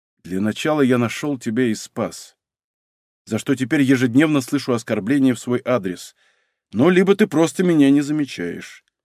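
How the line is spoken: Calm young man. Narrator (Russian): спокойно сказал молодой человек

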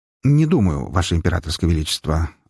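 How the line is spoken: Plain. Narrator (Russian): ответил Блинкиниэль

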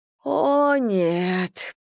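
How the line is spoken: Groaning woman. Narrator (Russian): простонала Анна

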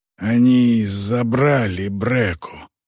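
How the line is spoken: Wheezing, badly wounded. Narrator (Russian): прохрипел он, и из уголка его рта потекла струйка крови

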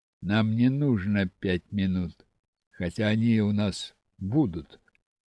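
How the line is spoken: Calm explanation. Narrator (Russian): спокойно объяснил Алексей

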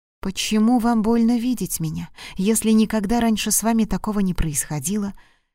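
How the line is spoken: Whispered. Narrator (Russian): прошептала

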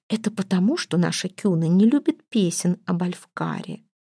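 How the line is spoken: Whispering in ear. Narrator (Russian): шепнула Торварду на ухо служанка

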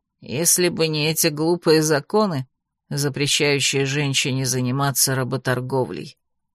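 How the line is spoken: Grumbling. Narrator (Russian): проворчала она

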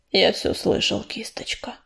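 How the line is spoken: Muffled reply. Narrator (Russian): глухо отозвался дым

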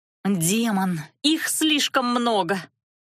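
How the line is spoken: Annoyed groan. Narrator (Russian): С досадой простонала Лана

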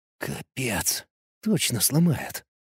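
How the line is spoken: Whisper. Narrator (Russian): прошептал я

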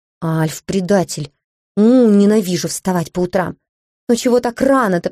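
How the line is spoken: Groaning. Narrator (Russian): простонала я

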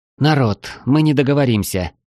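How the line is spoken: Tired sigh. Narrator (Russian): вздохнула Мелкая, устало

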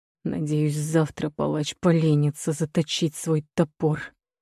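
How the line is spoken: Hissing. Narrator (Russian): прошипел маркиз в летнюю тишину

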